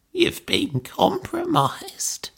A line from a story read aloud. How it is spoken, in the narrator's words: she croaked